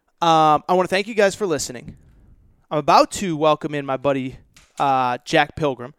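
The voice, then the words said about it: Breathless, tired-sounding voice. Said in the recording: “I'm out of breath. I'm tired.”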